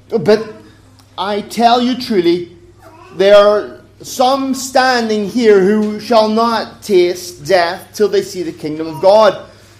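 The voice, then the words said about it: Accented English speech. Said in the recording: “Forgive the accent if you don't understand.”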